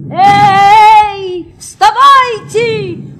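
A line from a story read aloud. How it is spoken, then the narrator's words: Shouted. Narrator (Russian): крикнул садник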